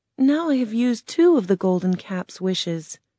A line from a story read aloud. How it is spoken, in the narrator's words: Dorothy said sadly